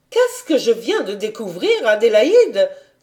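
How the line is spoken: Exclamation. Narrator (French): s'écria-t-elle

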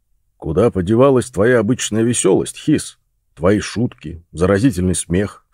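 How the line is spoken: Deep bass question. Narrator (Russian): спросил Росс басом

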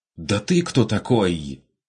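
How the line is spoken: Indignant shout. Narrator (Russian): Возмущенно выкрикнул голос

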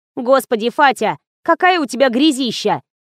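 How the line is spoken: Angry declaration. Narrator (Russian): сердито заявила Полина

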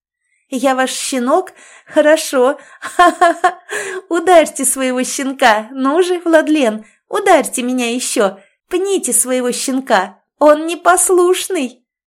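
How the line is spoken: Shouting while laughing and sobbing. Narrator (Russian): Выкрикиваю ему в лицо, смеясь и рыдая одновременно

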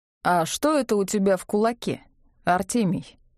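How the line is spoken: Official-toned question. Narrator (Russian): спросил он своим официальным тоном

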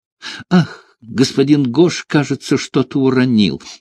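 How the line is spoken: Exclaimed. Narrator (Russian): воскликнула она

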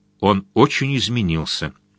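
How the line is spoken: Plain. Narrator (Russian): сказала Силия

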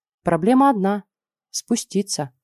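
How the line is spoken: Sighing. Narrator (Russian): вздохнула я

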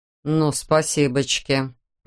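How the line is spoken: Strained through teeth. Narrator (Russian): процедил Саймон, выпитив нижнюю челюсть, что всегда предвещало взрыв

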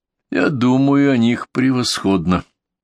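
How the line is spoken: Tired indifferent commander. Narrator (Russian): все тем же усталым, казалось, равнодушным голосом ответил командующий

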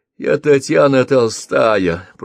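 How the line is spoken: Creaky rasp. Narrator (Russian): проскрипела Мелисса

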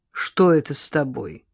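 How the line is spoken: Cold inquiry. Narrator (Russian): холодно поинтересовалась Лола

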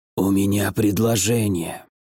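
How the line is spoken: Quiet hoarse voice. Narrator (Russian): раздался тихий хриплый голос

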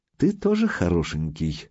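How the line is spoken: Velvety woman's voice. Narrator (Russian): сообщила красавица бархатным голосом

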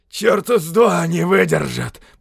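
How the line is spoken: Hoarse wheeze. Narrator (Russian): прохрипел кто-то рядом

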